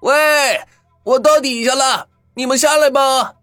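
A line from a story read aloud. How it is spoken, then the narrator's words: Loud shout. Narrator (Chinese): 他大声的往外面喊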